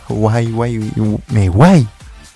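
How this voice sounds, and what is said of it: Poor attempt at English accent. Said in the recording (French): “Je tente l'anglais, mais non, mon accent anglais il est pourri.”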